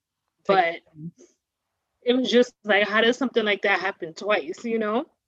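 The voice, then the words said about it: Emotional voice. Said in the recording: “I'm a little emotional.”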